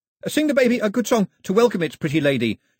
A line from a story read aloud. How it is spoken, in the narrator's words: shouted Pilu after them